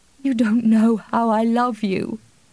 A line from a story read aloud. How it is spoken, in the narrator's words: she gasped